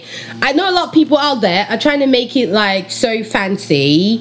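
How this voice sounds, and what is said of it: Put-on British accent. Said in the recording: “Did I just put on my British accent? ... fancy”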